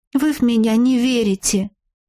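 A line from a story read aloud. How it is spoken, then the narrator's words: Sad sigh. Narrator (Russian): грустно вздохнула ведьмочка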